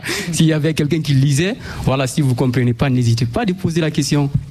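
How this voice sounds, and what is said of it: Slightly unusual French accent. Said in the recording (French): “j'ai un accent un peu bizarre”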